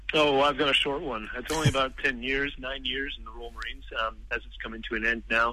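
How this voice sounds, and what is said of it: Canadian accent. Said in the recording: “I can't help but notice the accent, of course. You're not British ... But you're Canadian”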